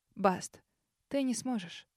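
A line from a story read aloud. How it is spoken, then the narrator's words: Quiet reply. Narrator (Russian): тихо ответила Лили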